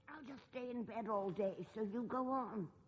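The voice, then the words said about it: Croaky, sick-sounding old voice. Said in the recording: “I've got a bad cold ... You sound ghastly, like some 90-year-old woman.”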